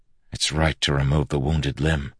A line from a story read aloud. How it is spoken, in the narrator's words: Kaladin whispered